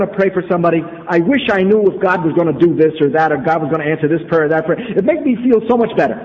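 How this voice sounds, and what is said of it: Usual voice. Nothing is said of it.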